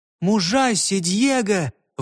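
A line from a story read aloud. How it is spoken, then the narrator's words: Gentle smiling exclamation. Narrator (Russian): воскликнула Мерседес с кроткой улыбкой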